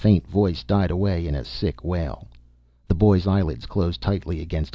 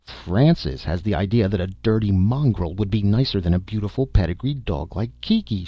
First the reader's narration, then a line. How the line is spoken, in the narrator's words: she cried disgustedly